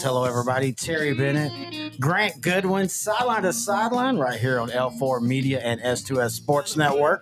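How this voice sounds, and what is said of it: Rough, strained, worn-out voice. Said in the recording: “my voice is a little butchered right now”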